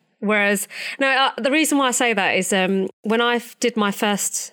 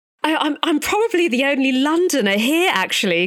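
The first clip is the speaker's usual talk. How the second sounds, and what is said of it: Posh English accent. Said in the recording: “speak like that with a posh accent”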